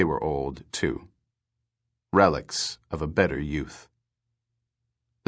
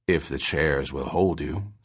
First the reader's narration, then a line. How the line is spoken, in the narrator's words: said the old man gravely